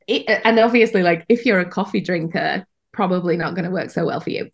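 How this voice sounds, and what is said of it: British accent. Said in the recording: “my accent betrays the fact that I'm British”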